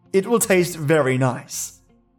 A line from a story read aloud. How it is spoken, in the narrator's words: laughed